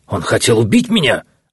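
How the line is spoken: Close, hoarse with agitation. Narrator (Russian): раздался почти над самой головой хриплый от волнения голос Валтасара

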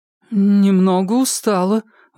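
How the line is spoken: Strained, forced out. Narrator (Russian): выдавила

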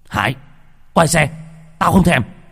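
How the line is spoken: Angry shout. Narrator (Vietnamese): Bình quát

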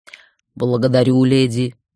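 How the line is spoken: Deep booming voice. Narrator (Russian): пробасил дух

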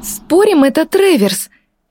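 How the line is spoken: Sudden exclamation. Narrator (Russian): вдруг воскликнула Эвридика

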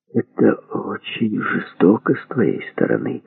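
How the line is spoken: Sad muttering. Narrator (Russian): огорченно пробормотал Андрей Андреевич

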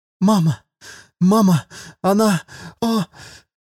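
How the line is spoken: Sobbing. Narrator (Russian): Цели всхлипнула

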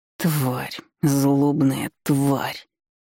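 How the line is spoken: Growling. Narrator (Russian): зарычал он

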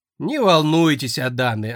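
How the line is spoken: Short chuckle. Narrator (Russian): хохотнула

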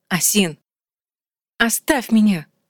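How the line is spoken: Hissing. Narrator (Russian): зашипела Асин, но даже не услышала себя

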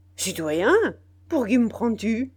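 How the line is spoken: Angry exclamation. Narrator (French): s'écria Biassou avec colère

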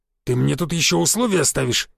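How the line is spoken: Growling. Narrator (Russian): зарычал Гвоздев

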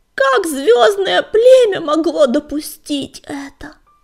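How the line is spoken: Shouting. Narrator (Russian): крикнула она

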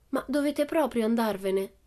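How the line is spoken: Regretful question. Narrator (Italian): chiese Pippi in tono dispiaciuto

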